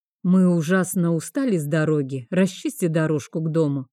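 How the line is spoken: Commanding. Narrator (Russian): приказал Вейнард

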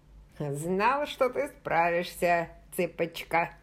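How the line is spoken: Plain. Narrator (Russian): сказал он

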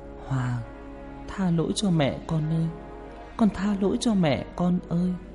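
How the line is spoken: Mutter. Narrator (Vietnamese): mồm lẩm bẩm

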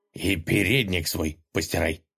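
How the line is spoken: Ruler's angry mutter. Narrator (Russian): сердито буркнул государь

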